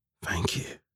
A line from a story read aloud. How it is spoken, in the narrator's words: he whispered to the suit